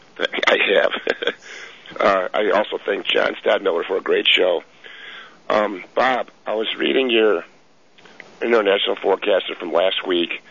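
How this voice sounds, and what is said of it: Raspy voice. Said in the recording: “excuse me for my raspy voice”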